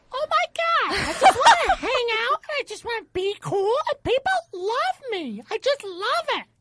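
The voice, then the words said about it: High-pitched girly helium voice. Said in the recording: “let's hear your girl voice ... That was helium.”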